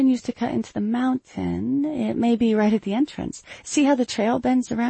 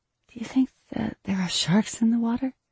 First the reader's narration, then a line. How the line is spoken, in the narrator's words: She whispered over her shoulder